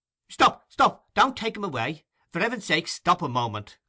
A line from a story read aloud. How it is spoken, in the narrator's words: cried the newcomer, breathless with haste